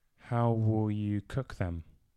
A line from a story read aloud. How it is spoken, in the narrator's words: Martin asked in a quiet voice